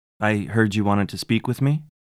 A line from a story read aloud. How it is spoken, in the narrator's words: she said